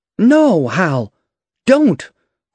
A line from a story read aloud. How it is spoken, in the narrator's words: cried Mercedes